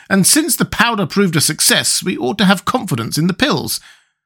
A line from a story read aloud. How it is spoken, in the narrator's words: exclaimed the Tin Woodman